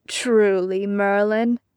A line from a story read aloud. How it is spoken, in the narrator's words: Arthur drawled